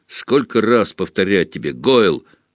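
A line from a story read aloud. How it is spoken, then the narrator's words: Growl. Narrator (Russian): рыкнул на него Малфой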